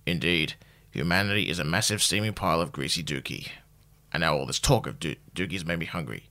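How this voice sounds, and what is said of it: Impression of Sean from The Good Place. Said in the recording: “I'll do a quick impression. This is Sean. ... he's got a lovely voice”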